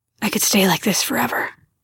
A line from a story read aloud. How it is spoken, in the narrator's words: Benji muttered